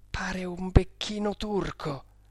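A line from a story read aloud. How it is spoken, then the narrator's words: Soft speech. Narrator (Italian): disse piano Maurizio del Ponte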